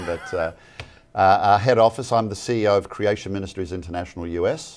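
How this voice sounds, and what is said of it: Australian accent. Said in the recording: “you have a beautiful accent ... Originally from the land down under”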